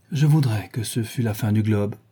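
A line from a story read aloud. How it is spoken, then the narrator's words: Sighing. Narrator (French): dit Dorian avec un soupir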